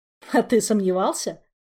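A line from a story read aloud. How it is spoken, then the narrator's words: Snorting. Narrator (Russian): хмыкнул инспектор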